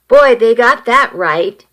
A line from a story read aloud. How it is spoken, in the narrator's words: Sherry exclaimed